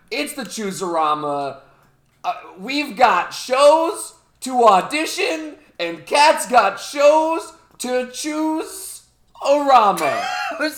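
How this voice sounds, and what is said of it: Yelling, loud energetic delivery. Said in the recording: “I'm yelling.”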